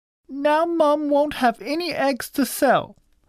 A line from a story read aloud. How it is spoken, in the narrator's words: shouted